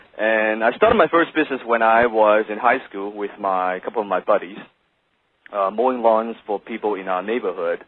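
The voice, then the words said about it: Non-native English accent. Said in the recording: “as you can tell from my accent, English is not my first language ... they still say I speak like Jackie Chan”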